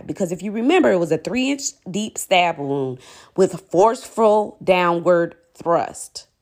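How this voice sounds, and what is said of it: Forceful emphatic delivery. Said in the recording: “did that with my voice,... I had to just like emphasize the forcefulness of the thrust”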